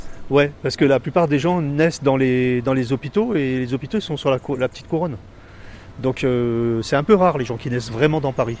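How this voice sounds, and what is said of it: Parisian French accent. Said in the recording (French): “j'ai gardé mon accent parisien quand même”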